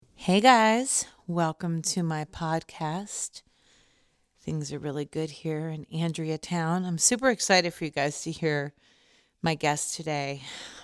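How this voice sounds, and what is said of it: Out of breath. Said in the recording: “I'm totally out of breath from climbing the stairs”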